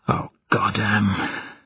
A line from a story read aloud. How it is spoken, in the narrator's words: Smar said quietly